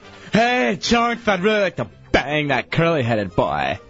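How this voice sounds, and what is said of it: Flamboyant, over-the-top imitated male voice. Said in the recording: “Flamboyant. ... Over the top? ... Oh, yeah. ... Do your impression of him. ... Yeah, do your impression.”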